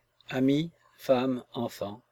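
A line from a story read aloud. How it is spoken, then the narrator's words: Slow. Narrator (French): fit-il lentement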